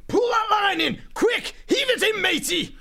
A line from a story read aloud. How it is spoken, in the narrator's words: yelling